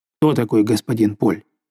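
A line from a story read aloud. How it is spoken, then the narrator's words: Plain. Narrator (Russian): спросил его товарищ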